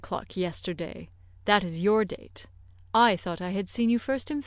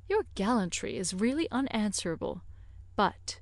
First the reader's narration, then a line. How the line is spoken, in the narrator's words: lowering her voice